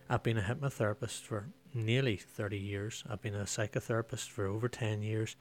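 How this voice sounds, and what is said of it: Northern Irish accent. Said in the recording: “for this accent, it can only mean I live and work in Northern Ireland”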